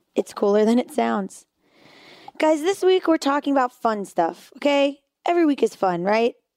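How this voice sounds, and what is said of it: Hoarse, strained voice. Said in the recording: “my voice sounds a little crazy. I spent a week at a camp where I was screaming.”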